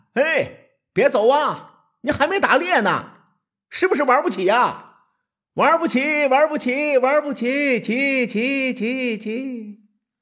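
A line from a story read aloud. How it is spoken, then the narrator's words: Shouting. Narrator (Chinese): 齐威王大喊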